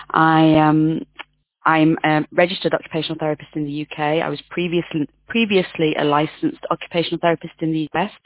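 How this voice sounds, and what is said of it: British accent. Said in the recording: “As you might gather from my accent, I'm from the UK.”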